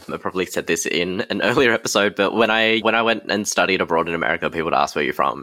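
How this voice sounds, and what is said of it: Australian accent. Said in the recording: “My Australian accent got broader when I was surrounded by Americans”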